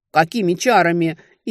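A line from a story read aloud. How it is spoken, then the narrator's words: Hysterical cry. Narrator (Russian): истерично вскрикнул парень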